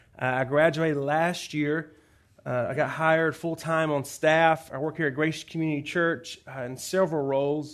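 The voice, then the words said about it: Southern US Georgia accent. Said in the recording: “You may hear the accent. I'm not from Los Angeles. Born and raised in Georgia.”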